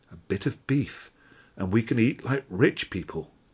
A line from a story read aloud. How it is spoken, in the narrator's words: they whispered